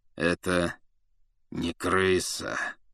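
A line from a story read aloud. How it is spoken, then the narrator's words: Through gritted teeth. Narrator (Russian): процедил сквозь зубы Сириус Блэк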